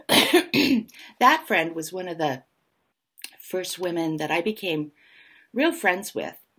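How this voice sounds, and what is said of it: Slightly hoarse voice. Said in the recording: “I'm a little bit hoarse this morning”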